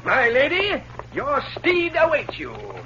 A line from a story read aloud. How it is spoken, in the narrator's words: With mock dignity, he called out